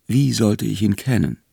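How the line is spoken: Teacher speaking quietly. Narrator (German): sagte der Lehrer leise

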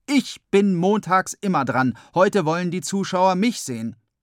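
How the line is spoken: Calling out. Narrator (German): Der eine ruft

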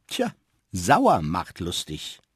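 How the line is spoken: Dry, grinning remark. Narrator (German): grinste und meinte nur trocken

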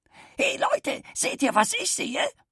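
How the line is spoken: Grater shouting. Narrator (German): schrie da die Zündreibe

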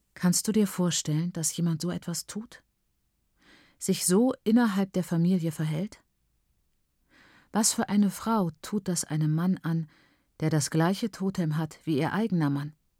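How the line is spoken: Aunt speaking quietly. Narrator (German): meine Tante leise sagte

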